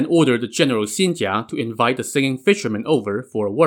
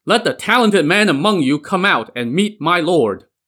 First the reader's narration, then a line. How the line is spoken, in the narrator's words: Xin Jia rode forth and shouted